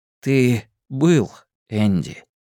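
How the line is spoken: Gentle. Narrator (Russian): мягко заметил Эдди

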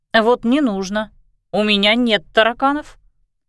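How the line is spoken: Grumbling. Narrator (Russian): проворчала Кристина

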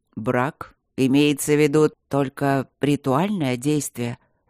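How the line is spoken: Hoarse. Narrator (Russian): уточнил Макс сипло

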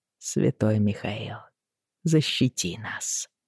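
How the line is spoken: Quiet. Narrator (Russian): тихо произнес Джейми

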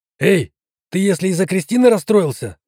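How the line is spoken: Shout. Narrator (Russian): выкрикнул Герман

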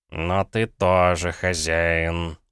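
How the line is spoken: Grumbled, cat. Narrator (Russian): буркнул кот

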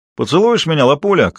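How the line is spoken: Thug's shout. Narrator (Russian): крикнул ей мордоворот

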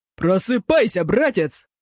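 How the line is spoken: Yelling right into ear. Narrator (Russian): заорал он ему в самое ухо

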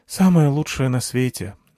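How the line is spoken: Sighing. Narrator (Russian): вздохнула Анахита

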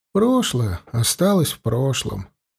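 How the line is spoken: Sighing. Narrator (Russian): Полянский снова вздохнул

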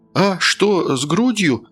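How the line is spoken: Frightened question. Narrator (Russian): испуганно переспросил Тим

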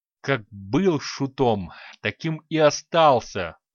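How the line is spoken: Hissing old man. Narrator (Russian): прошипел старик

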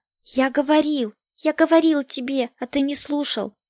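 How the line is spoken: Terrified babbling, chattering teeth. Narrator (Russian): Чуть не умирая со страха, лепетал ему, стуча зубами, младший брат

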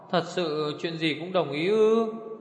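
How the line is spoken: Sniffling question. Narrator (Vietnamese): Như Ca thút thít hỏi

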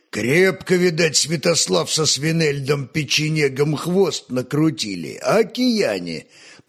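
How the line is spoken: Deep old man's bass. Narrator (Russian): пробасил седой Десяцкий

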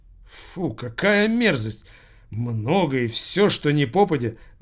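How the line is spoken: Exclaimed. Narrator (Russian): воскликнул учитель Воркута

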